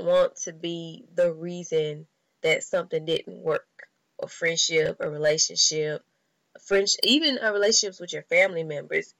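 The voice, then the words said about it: Cracking early-morning voice. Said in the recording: “my voice is on, all this cracking, because it's so early in the morning”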